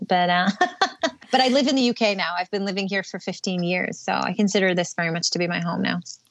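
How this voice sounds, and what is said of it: American-sounding accent. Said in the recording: “most people think I'm American because of the accent.”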